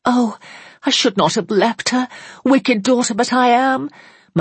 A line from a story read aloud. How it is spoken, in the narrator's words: moaned forth Margaret